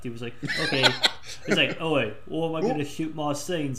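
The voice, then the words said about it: Poor imitation, Australian accent. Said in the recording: “worst Hugh Jackman impersonation ... You both sound like Paul Hogan ... they're both Australian”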